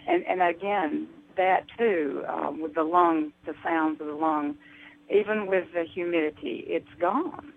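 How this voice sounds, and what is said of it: Slight Southern US accent. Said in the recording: “I could hear Hilda had a bit of an accent if she was from the South”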